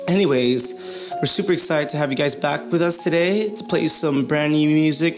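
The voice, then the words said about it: Hoarse, dried-out voice. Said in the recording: “my hoarse voice today ... The desert really dried up my voice, and I've been singing and belting away”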